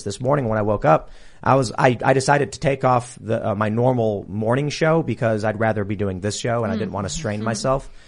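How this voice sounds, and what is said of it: Hoarse, rough voice. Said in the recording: “you might notice my voice a little hoarse ... So I'm a little rough”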